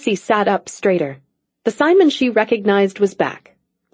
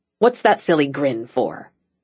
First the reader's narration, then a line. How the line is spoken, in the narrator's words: he demanded in the gruff voice